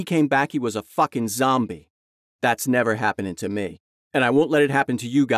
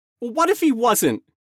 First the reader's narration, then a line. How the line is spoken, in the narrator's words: Jamie screamed